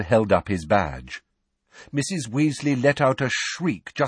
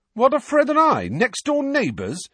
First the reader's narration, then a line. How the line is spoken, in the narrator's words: said George indignantly